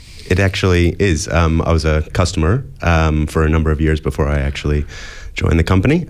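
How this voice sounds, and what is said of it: American accent. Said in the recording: “as you can probably hear from my accent, I grew up in the US”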